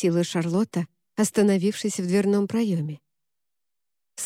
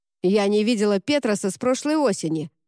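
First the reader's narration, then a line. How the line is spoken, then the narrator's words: Snapping. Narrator (Russian): огрызнулась Сен-Клер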